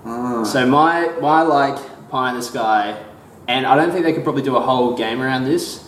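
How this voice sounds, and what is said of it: Australian accent. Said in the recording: “we're both Australian, by the way. ... If you couldn't tell from our accents”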